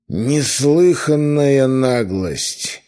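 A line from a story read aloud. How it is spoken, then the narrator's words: Thundering voice. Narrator (Russian): прогремел над нами голос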